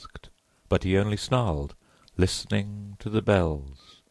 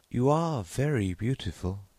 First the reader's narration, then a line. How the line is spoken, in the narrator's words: sighed the clown